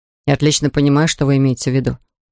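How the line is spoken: Plain. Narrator (Russian): сказал я

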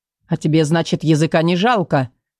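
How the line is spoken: Scoffing grunt. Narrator (Russian): хмыкнул начальник стражи

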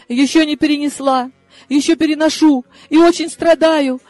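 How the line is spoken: Sniffling, breaking into sobs. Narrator (Russian): шмыгнула носом я и разрыдалась

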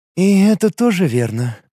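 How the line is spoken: Sighed. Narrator (Russian): Лига вздохнула

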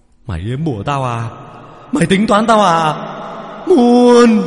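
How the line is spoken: Hissing shriek. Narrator (Vietnamese): nó khựng lại, nó rít lên

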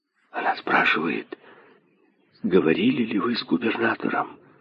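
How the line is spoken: Merchant's whisper. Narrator (Russian): шепнул торговец

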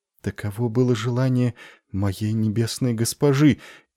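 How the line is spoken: Frightened, trailing off. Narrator (Russian): испуганно начала она и смолкла

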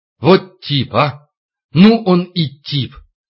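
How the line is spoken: Happy tearful sob. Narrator (Russian): сквозь слезы счастливо всхлипнула

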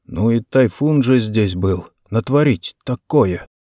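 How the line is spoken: Muttering. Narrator (Russian): один из матросов пробормотал

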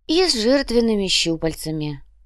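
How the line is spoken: Sigh. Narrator (Russian): вздохнула Даора

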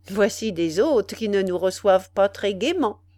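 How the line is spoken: Plain. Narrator (French): dit Ordener

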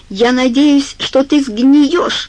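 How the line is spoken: Shout. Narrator (Russian): крикнула она ему

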